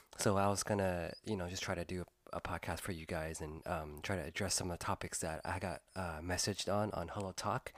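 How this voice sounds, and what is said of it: Slightly weak, cold-affected voice. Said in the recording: “I might be sounding a little bit weird today ... I'm actually still recovering from a little cold ... my voice is kind of starting to come back”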